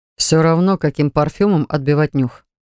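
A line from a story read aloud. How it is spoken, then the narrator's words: Dry objection. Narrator (Russian): сухо возразил он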